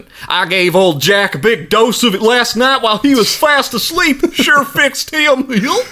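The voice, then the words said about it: Put-on Southern US accent. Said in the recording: “that definitely needs to be read in a southern accent.”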